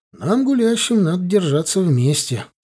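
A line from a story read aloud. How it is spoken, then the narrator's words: Calm reply. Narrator (Russian): спокойно ответил учительница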